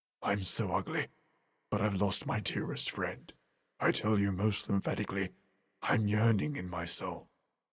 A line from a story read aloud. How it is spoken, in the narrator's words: we saw two tears descend as he murmured